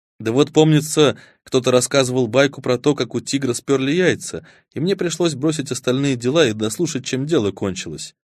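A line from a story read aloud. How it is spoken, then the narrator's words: Giggling. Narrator (Russian): мистер Нанси хихикнул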